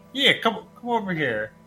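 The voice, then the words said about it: Weird put-on Texan accent. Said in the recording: “someone in Texas being like ... I don't know why I gave and them a weird accent ... Yeah, that was weird.”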